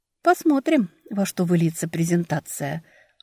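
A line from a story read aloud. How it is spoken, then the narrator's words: Quiet answer. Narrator (Russian): ответила я тихо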